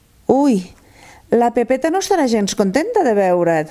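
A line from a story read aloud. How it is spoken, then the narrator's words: Exclaimed. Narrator (Catalan): va exclamar la Mariona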